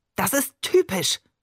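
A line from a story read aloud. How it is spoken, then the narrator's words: Sharp cutting call. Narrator (German): rief er schneidend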